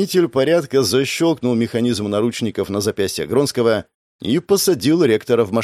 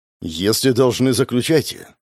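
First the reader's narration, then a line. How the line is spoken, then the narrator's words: Calm agreement. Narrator (Russian): спокойно согласился ректор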